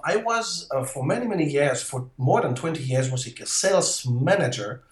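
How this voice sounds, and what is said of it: French accent. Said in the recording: “you can hear that on my accent. I am French.”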